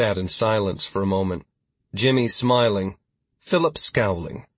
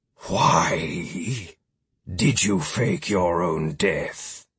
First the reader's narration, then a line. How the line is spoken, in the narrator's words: Philip growled